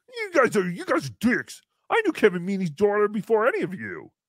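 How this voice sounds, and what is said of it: Imitates another person's voice. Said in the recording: “This is my Chad impression”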